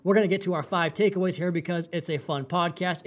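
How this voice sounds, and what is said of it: Excited, fired-up voice. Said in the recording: “If you cannot hear it in my voice, I'm a little bit fired up.”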